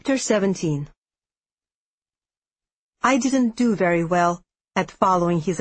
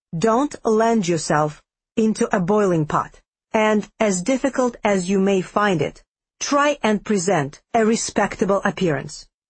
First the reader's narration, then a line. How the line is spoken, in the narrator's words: said stiffly